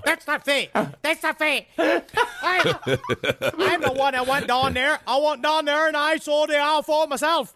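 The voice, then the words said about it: Strange Boston-like accent impression of Charles Holt. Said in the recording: “That's how he sounds. It's very strange accent. ... Maybe he's Massachusetts. Perhaps he's a Bostonian.”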